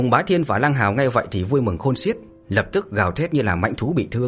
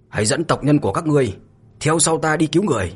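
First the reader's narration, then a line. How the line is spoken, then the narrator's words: Murderous loud shout. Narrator (Vietnamese): Mạnh Hổ tràn đầy sát cơ bừng bừng, lớn tiếng quát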